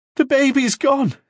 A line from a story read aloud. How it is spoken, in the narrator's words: he sobbed